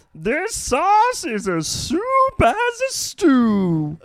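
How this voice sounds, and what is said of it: Funny, soothing character voice. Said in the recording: “I like his voice. ... soothing. ... Funny. ... It's a funny voice.”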